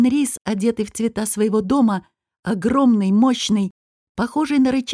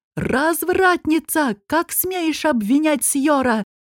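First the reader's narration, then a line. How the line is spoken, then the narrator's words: Angry yell. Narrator (Russian): заорал Анрис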